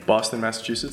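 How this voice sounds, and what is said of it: Put-on Boston accent. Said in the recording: “as they would say ... You have to accent it like that? That's how that works? Very good.”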